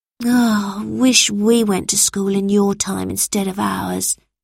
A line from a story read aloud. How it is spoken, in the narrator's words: sighed Anton